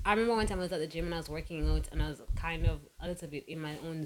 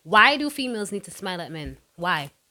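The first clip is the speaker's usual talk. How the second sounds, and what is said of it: Louder, emphatic speech. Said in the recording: “going to say this louder”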